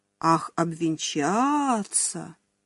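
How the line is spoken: Drawling. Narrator (Russian): протянул Арцеулов

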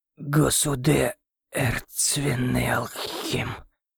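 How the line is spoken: Mangled, forced out words. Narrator (Russian): коверкая слова, выдавил он

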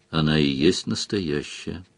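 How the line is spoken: Tired. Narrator (Russian): устало сказал Сварог

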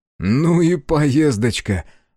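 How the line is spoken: Young man exclaiming. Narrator (Russian): воскликнул молодой император

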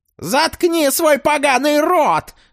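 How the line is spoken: Shrieked. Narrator (Russian): завизжала двухголовая

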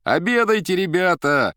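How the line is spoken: Cooks shouting. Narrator (Russian): кричали повара

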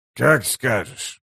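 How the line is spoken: Mumble. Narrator (Russian): пробормотал Геборик

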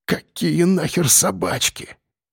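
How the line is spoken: Whisper. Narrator (Russian): прошептал он

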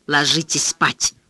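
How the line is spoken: Whispered grumble. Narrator (Russian): шепотом проворчала мама

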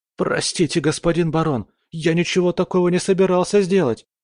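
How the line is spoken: Nervous babbling. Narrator (Russian): залепетал парень

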